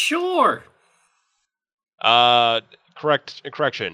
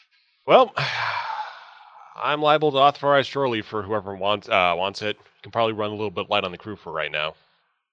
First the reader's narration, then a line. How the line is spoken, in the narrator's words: Riff sighs, says